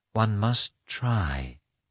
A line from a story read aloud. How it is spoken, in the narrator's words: she said gently